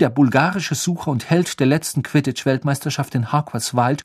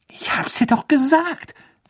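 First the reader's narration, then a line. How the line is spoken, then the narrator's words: Hissed aside. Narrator (German): zischte Ron Hermine zu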